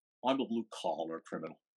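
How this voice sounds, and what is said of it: Imitates another person's voice. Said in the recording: “my one Charles Grodin impression.”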